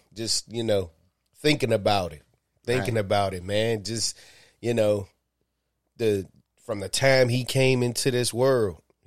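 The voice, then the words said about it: Choked-up emotional voice. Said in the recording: “getting choked up”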